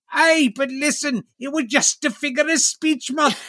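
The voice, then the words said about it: Exaggerated put-on accent. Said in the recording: “Stop talking in that ridiculous accent”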